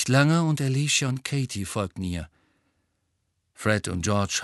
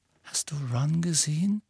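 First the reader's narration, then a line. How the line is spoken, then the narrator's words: Quiet question. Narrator (German): fragte Hermine mit leiser Stimme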